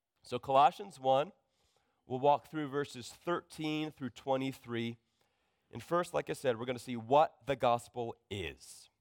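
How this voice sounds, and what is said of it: Sick, low, worn voice. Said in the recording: “I've been a little sick this week, so you can probably hear in my voice... It's kind of running a little low”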